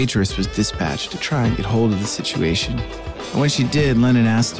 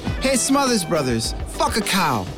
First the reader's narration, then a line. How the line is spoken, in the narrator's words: Lennon, a natural heckler, yelled to the stage